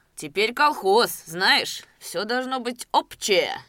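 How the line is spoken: Stern. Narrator (Russian): строго сказал бородач

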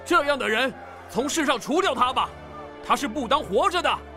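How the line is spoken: Crowd speaking loudly. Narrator (Chinese): 众人 高声说

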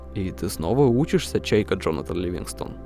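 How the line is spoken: Plain. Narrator (Russian): сказал он

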